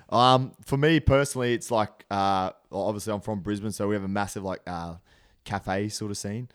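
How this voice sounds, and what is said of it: Australian accent. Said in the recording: “You love hearing the Aussie accent... It's the one place you're pretty much guaranteed to hear an Aussie accent.”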